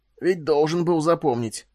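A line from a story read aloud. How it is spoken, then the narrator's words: Hoarse. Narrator (Russian): прохрипел Фаркосиган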